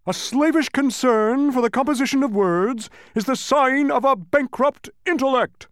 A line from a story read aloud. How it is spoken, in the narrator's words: roared the humbug